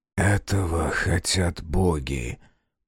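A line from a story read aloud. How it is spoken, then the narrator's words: Whisper. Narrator (Russian): прошептал лежавший рядом Таквал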